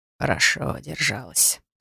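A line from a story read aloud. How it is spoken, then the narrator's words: Muttered into ear. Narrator (Russian): пробормотал хранитель на ухо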